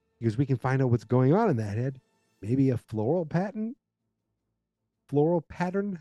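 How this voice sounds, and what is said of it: Boston New England accent. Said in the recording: “that Boston accent or that New England accent comes through. ... So that accent, it pops sometimes”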